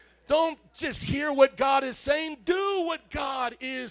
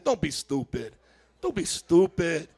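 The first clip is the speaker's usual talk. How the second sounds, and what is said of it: Chicago accent. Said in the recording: “say with Chicago accent”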